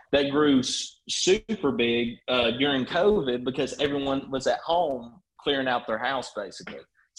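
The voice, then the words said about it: Thick regional accent. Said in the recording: “that accent is like generationally thick”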